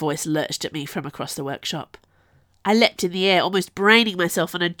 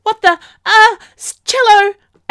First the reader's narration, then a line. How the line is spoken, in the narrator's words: I said, blurting out